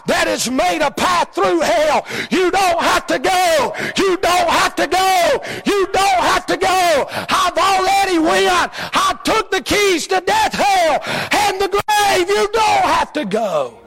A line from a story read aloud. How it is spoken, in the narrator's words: Jesus scream out